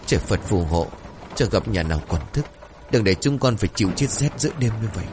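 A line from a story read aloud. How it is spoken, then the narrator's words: Prayer-like mutter. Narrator (Vietnamese): Lễ cô lẩm bẩm như khấn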